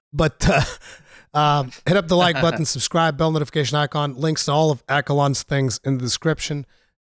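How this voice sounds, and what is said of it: Rough, damaged voice. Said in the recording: “my terrible voice, or maybe sexy voice”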